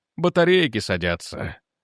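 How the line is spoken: Muttered. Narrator (Russian): пробормотал Дженкинс

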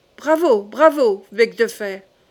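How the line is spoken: Sudden shout. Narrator (French): cria tout à coup Charles

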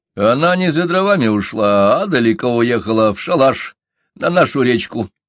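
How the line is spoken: Rough. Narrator (Russian): грубо сказал Чумбока

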